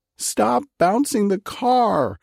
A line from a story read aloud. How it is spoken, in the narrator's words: Helen shrieked